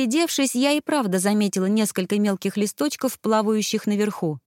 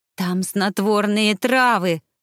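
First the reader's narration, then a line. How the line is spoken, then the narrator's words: Irritated. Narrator (Russian): раздраженно произнесла Изи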